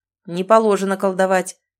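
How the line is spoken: Rough reply. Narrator (Russian): грубо ответил один из прибывших

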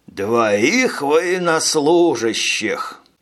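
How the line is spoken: Strained, forced out. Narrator (Russian): выдавил Минц

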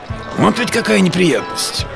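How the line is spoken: Muttering. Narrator (Russian): бормотал гасконец

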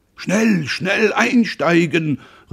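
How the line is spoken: Calling out. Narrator (German): rief Roland

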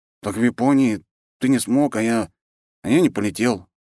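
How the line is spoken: Sighing. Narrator (Russian): вздохнул Андрей

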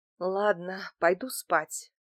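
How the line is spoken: Tired offhand remark. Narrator (Russian): бросила я устало

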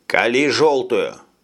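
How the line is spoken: Dry answer. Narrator (Russian): сухо ответил Джим

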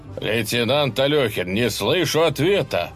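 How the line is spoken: Stern question over intercom. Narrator (Russian): строго вопрошал Горячев по коммутатору

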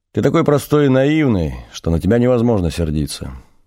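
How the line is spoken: Calm after laughter. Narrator (Russian): Отсмеявшись, Надя сказала

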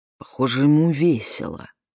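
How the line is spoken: Grumbled. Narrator (Russian): пробурчала

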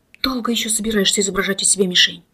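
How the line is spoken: Irritated hoarse whisper. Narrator (Russian): Раздраженный хриплый шепот

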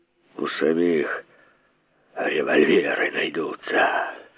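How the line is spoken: Listless mutter. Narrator (Russian): Пробормотал, но очень вяло

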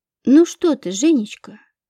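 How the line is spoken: Tender singsong. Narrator (Russian): ласково пропела Екатерина Антоновна

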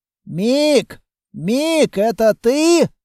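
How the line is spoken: Shouting. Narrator (Russian): крикнул Кейко

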